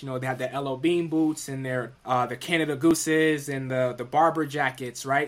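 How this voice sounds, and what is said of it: New York City accent. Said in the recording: “I'm from New York City ... I talk with a very specific accent. That was so uncommon there, as most people were used to the very New England style of speaking”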